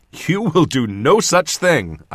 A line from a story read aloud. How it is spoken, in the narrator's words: I said, laughing